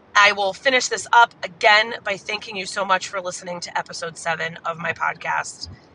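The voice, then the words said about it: Hoarse voice. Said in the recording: “I'm a little bit hoarse. I've been that way for like a week or two now.”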